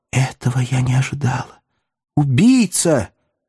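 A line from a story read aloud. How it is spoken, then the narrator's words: Shuddering whisper. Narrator (Russian): Она содрогнулась и прошептала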